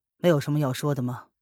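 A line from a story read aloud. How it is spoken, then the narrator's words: Calm, flat. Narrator (Chinese): 叶轩寒开口，淡淡的说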